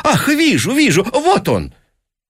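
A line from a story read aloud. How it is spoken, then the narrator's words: Feigned animated exclamation. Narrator (Russian): сделанным оживлением, воскликнул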